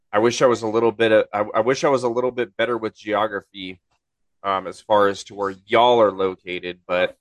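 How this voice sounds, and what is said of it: Congested, stuffed-up nasal voice. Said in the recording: “I sound weird. I've been stuffed up for 2 days now”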